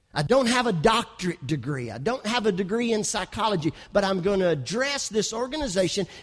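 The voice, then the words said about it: West Kentucky accent. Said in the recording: “I've got a West Kentucky accent.”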